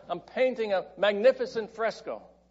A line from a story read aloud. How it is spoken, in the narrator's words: shouted back